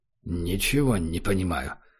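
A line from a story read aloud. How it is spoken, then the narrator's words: Muttering. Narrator (Russian): пробормотал Убер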